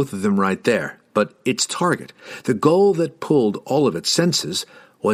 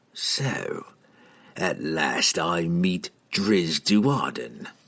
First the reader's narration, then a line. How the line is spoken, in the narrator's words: Treri hissed